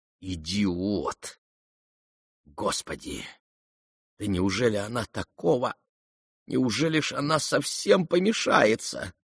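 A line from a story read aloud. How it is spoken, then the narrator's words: Sudden angry whisper to herself. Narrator (Russian): Аглая вдруг гневно прошептала про себя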